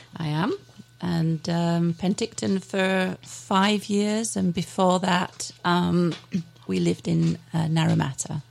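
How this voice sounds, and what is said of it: West Yorkshire English accent. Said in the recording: “You've got this wonderful accent ... That comes directly from West Yorkshire in England ... It's a delightful accent”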